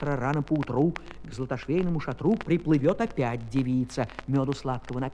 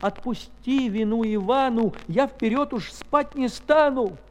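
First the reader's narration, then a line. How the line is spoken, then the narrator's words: Sobbing plea. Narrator (Russian): Иванушка заплакал и рыдаючи просил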